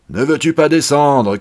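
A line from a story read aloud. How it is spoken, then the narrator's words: Shouting. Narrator (French): criait la Barbe Bleue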